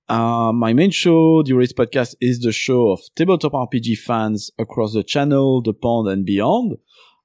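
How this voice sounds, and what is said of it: Belgian French-speaker's accent. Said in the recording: “as you might tell by my accent, which is not quite London. I was born in Belgium. My first language is French”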